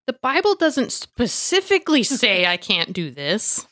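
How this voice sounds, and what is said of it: Snotty entitled Karen voice. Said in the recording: “putting on my Karen voice? ... It was easy to say them in that snotty voice”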